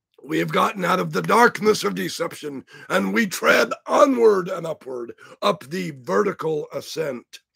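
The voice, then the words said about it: Raspy voice. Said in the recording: “I'm sounding raspy, aren't I?”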